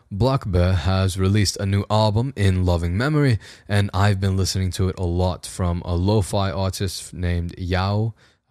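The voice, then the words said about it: Practiced British accent, still learning. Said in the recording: “I've been practicing a British accent ... we can do the rest of the outro in it ... my first time doing it a bit publicly”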